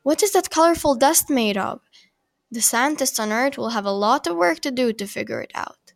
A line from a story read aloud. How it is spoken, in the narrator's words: says Nicola